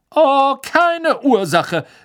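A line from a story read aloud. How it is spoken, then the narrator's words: Indignant call after. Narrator (German): rief ihnen die fette Dame entrüstet nach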